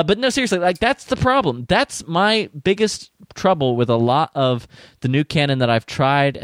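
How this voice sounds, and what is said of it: Usual voice. Nothing is said of it.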